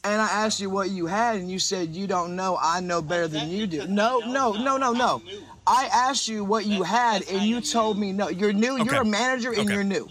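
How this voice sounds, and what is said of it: Southern US accent. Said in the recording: “So I'm going to assume this is in the South... I don't know if I've ever heard a Northern accent quite sound just like our friend there.”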